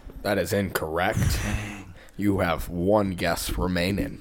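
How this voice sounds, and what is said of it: Robotic announcer voice. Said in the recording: “That was my robot announcer voice.”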